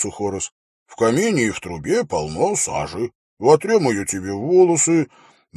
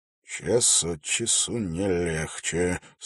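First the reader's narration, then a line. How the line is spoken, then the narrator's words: Gloomy. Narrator (Russian): сказал он мрачно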